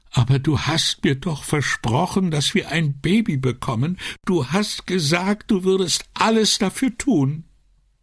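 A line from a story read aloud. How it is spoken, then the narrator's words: Tearful trembling pleading. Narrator (German): mit tränenüberströmtem Gesicht flehte mit bebender Stimme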